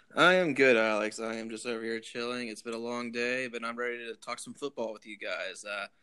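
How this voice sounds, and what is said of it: Smooth radio announcer voice. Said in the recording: “got his radio voice ready”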